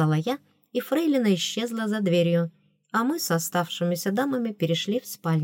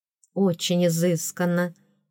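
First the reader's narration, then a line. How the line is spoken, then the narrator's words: Admiring sigh. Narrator (Russian): восхищенно вздохнула Лира Бри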